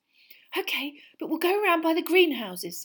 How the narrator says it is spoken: said Hermione breathlessly

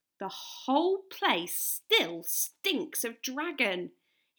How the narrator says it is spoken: he grumbled to himself

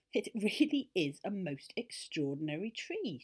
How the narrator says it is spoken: she giggled

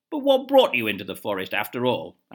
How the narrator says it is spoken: asked the king angrily

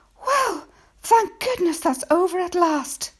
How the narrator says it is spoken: a woman's voice behind me cried out

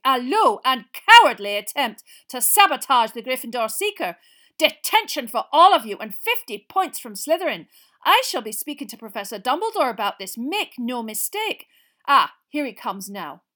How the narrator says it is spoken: she was shouting

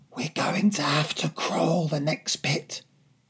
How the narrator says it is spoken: whispered

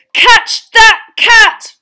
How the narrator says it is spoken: Ron yelled

